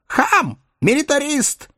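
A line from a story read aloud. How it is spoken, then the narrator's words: Shrieking. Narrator (Russian): завизжала тетка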